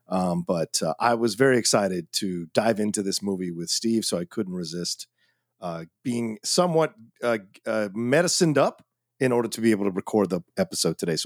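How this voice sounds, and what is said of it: Sick, slightly strange-sounding voice. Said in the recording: “I have been fighting off an illness for the last few days. So if my voice sounds a little weird and strange”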